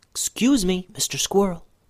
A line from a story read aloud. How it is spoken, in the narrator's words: Ben Ben whispered